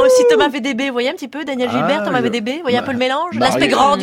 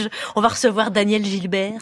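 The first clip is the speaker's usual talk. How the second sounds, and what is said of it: Put-on Belgian French accent. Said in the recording (French): “je vous le dis en belge”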